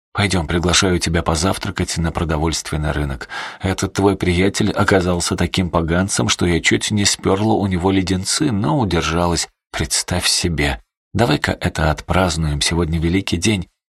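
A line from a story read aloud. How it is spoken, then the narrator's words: Crushed, dejected tone. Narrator (Russian): убитым тоном предложила Эсти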